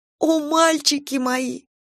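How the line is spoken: Sobbing. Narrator (Russian): зарыдала

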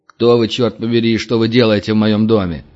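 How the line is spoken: Angry question. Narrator (Russian): сердито спросил орк, которого назвали боссом

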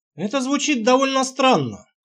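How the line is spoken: Snorting. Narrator (Russian): хмыкнул я

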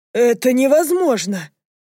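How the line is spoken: Breathed out. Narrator (Russian): выдохнул он

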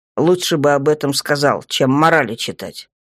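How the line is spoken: Grumble. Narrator (Russian): проворчал темный, обращаясь к Хижалу

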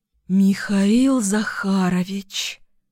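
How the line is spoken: Relieved exhale. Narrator (Russian): Выдохнула я с облегчением

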